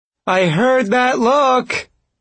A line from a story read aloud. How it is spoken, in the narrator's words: She called out, and her laughter echoed back